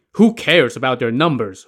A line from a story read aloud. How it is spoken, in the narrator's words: Hu Yanzhuo scoffed